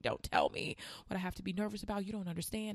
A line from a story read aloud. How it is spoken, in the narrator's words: I just started screaming